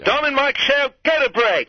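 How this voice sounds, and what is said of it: Put-on British accent. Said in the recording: “do your British accent ... Go ahead, in your British accent.”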